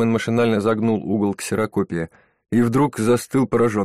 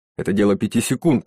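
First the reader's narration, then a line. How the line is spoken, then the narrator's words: Barked. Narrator (Russian): рявкнул Бакман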